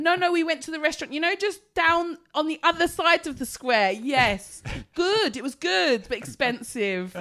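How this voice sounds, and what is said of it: Slower, louder put-on foreign accent. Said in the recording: “I've become conscious of my foreign accent, so I've got a foreign accent ... when I speak to foreign people, I talk. I like this ... working on my foreign accent ... You get slower and louder, don't you?”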